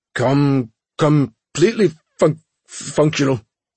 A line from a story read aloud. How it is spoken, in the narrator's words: the engineer stuttered